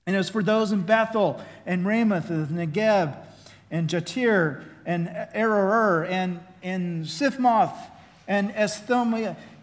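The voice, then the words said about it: Oklahoma accent. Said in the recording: “my Oklahoma accent”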